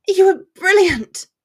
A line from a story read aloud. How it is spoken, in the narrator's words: exclaimed, in a sing-song voice